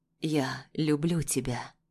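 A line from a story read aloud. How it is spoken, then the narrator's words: Hoarse. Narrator (Russian): произносит хрипло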